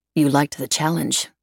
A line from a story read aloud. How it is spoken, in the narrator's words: Emily said flatly